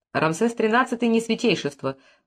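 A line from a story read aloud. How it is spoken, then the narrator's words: Dry interjection. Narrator (Russian): сухо вставил Мефрес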